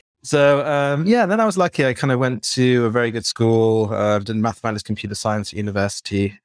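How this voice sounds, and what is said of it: British accent. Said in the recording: “I worked on my British accent and now it's wonderful. I'm very proud of it.”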